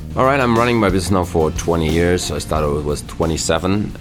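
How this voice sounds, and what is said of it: Heavy non-native English accent. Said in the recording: “his English is not perfect, and some of what he says is difficult to understand ... his accent”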